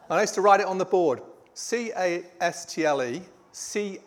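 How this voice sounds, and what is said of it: Yorkshire accent. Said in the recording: “my Yorkshire accent”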